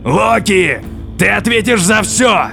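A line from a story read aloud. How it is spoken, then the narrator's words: Thundering voice. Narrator (Russian): Прогремел Один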